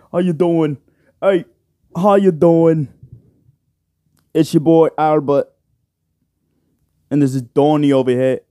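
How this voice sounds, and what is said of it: Put-on British accent. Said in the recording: “That's my British accent.”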